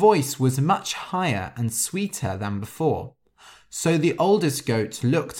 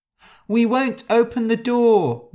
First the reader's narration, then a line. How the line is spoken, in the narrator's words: cried